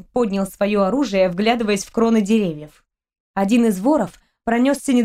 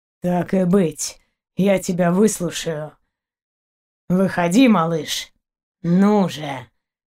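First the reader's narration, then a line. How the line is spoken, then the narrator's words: Hoarse wheeze. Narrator (Russian): хрипел дальше Заури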